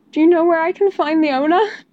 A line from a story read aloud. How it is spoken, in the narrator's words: Peter asked a little desperately